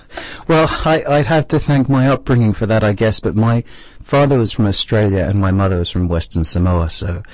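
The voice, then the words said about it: English accent with slight twangs. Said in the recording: “your wonderful English brogue ... mainly English with two little twangs here and there”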